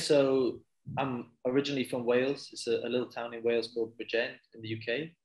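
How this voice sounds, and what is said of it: Welsh accent, not Australian. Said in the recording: “I can hear by your accent, you're obviously not Australian”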